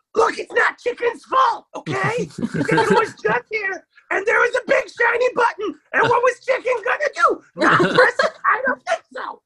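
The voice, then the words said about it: Cartoon character voice of Chicken. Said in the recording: “He speaks in third person ... doing that voice”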